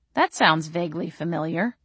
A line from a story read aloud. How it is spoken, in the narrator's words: I said dryly